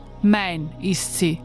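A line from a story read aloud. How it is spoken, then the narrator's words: Plain. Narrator (German): sagt der Jäger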